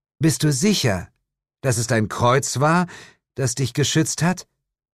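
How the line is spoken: Shout. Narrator (German): rief Jane

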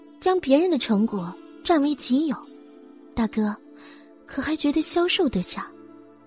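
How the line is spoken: Deliberately taunting. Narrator (Chinese): 他却依然故意这样说

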